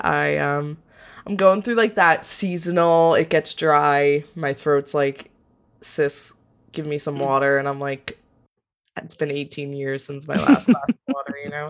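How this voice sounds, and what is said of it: Slightly congested voice. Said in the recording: “my throat hurts... I sound a little congested.”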